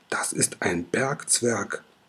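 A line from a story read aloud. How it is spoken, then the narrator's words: Surprised murmur. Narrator (German): raunt Orakelchen überrascht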